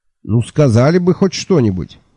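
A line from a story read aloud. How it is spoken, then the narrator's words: Nervous bark. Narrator (Russian): нервно рявкнул я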